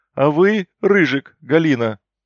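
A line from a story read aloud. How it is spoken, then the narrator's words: Loud snort. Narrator (Russian): Я громко хмыкнул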